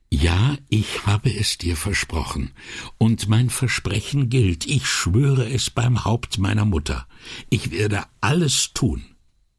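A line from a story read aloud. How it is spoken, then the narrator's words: Quiet but meant to be overheard. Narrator (German): Leise, aber nicht zu leise für die Ohren der zwei Ärzte, sagte er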